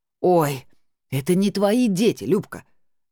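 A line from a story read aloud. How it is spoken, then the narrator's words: Sister's indignant hiss. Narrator (Russian): возмущенно зашипела сестра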